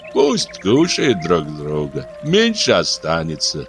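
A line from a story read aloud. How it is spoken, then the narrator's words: Calm interruption. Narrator (Russian): Папуна спокойно перебил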